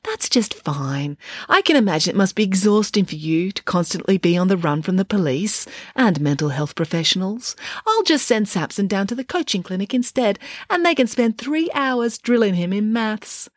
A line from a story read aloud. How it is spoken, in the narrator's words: said Nanny Ann sweetly